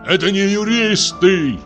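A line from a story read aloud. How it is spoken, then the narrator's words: Loud shouting. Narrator (Russian): кричал он на весь арестантский дом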